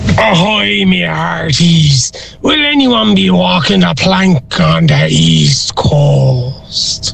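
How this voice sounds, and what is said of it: Pirate voice. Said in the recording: “as best you can in a pirate voice”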